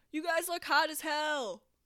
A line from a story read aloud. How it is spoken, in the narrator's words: someone called out from the back of the cafeteria